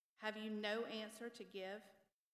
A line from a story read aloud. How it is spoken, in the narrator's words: he asked